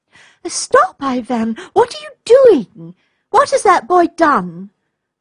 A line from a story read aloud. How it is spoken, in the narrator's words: cried the little girl